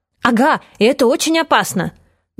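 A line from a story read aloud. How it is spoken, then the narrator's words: Boy, excited. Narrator (Russian): добавил пацан взволнованно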